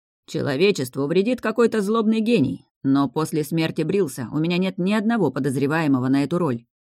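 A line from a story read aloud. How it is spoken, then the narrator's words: Stubborn grumbling. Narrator (Russian): упрямо проворчал Орин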